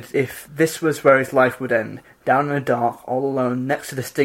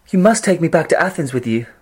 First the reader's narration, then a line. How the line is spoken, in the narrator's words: she cried